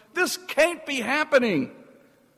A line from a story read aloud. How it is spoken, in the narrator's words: a voice teeming with disgust and anger exclaims